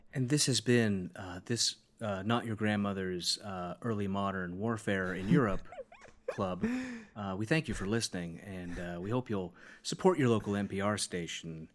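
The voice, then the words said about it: Smooth public radio announcer voice. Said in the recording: “It's a great NPR voice.”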